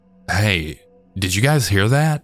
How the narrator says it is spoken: nervously asked

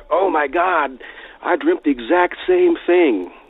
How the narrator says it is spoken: he yelled back

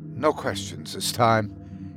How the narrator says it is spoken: he said quietly

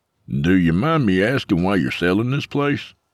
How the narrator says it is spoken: Mike chuckled self-deprecatingly as he tried to restrain his bitterness

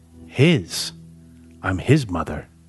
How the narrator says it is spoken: said softly

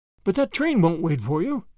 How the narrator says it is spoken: gasped Grandma, half in protest

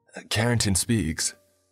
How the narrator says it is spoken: one of the men next to me gasped

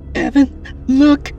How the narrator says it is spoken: Katrina cried

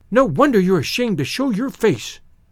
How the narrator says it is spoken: she cried

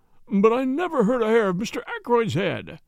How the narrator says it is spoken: moaned

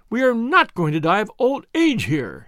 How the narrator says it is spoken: cried

